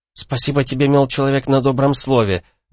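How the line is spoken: Irritated retort. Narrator (Russian): раздраженно бросила в ответ Виста

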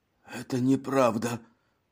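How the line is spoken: Hoarse wheeze. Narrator (Russian): прохрипел Жан

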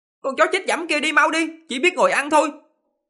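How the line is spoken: Loud shout. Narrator (Vietnamese): quát to

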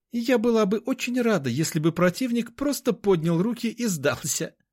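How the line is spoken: Laughing loudly. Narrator (Russian): расхохоталась

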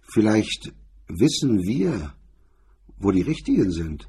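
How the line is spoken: Said gently. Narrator (German): McDonald sagte sanft

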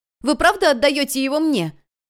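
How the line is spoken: Shouting upward. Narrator (Russian): крикнула Хон небесам

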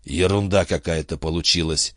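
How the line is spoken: Hoarse. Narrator (Russian): хрипло сказал он Рону

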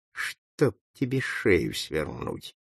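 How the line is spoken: Muttered curse. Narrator (Russian): пробормотал ей вслед

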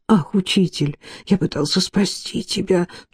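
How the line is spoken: Groaning. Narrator (Russian): Тут он застонал

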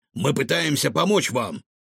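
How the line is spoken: Stern. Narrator (Russian): строго сказал рикошет

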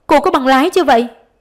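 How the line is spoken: Shouting. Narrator (Vietnamese): Giáo sư la lên

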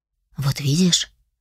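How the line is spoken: Hoarse whisper. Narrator (Russian): прошептал, его голос был хриплый

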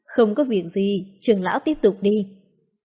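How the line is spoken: Calm, laughing loudly. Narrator (Vietnamese): Phương Thốn bình tĩnh cười to, nói

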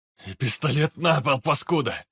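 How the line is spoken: Barked. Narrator (Russian): Рявкнул

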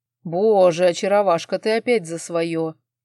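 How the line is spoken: Reproachful chuckle. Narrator (Russian): хохотнул, укоризненно

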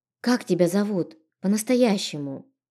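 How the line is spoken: Sad question. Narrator (Russian): грустно спросила

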